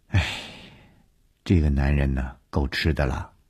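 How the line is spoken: Sighing. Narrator (Chinese): 叹了一口气说

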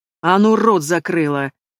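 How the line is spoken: Growl. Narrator (Russian): Прорычал Гордей

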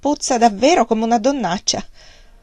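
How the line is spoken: Laughing. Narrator (Italian): disse ancora ridendo

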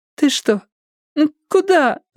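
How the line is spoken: Confused whimpering. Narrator (Russian): скулила Стефани, не понимая, что происходит

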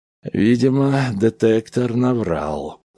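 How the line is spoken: Tired, heavyset man. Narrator (Russian): сказал устало Кейбл, дородный человек с младенчески розоватой кожей

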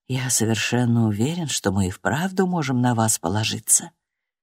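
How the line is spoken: Quiet. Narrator (Russian): он тихо ответил

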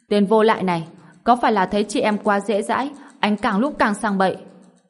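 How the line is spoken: Furious loud outburst. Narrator (Vietnamese): Liệu Yên Hồng tức giận trời ầm lên

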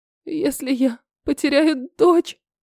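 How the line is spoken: Voice breaking into sobs. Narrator (Russian): сорвался голос в рыдание

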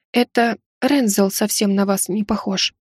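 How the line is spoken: Near whisper. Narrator (Russian): произнесла практически шепотом

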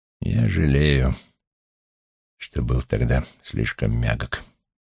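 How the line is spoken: Quiet and grim. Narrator (Russian): тихо и мрачно сказал

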